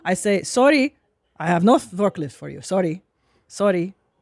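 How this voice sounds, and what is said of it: Put-on Middle Eastern accent. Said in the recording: “the minute I hear that fucking accent ... all Middle Eastern”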